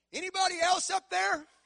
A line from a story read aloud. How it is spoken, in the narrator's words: yell